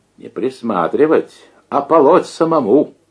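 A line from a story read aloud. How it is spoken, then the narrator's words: Cheerful laughter. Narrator (Russian): весело рассмеялся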